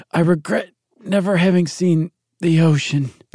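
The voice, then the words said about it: Gasping dying voice of Mok Mok. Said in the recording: “in his dying words, gasping ... That was a great Mok Mok impression.”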